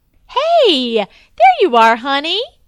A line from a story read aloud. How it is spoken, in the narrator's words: she said cheerfully